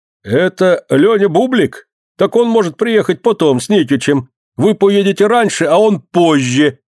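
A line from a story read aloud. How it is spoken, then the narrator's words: Loud, recovered composure. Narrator (Russian): придя в себя, громко говорит Кулеша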